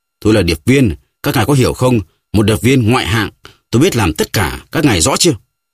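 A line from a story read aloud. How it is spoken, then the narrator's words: Furious shout. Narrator (Vietnamese): Resatveli cấu tiết quát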